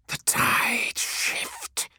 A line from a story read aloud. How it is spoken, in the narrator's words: hissed Tormageddon